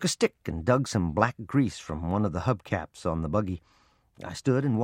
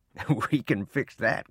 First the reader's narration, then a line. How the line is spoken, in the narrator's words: Grandpa chuckled